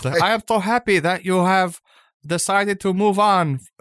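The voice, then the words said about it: Put-on Japanese accent. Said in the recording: “has a Japanese accent”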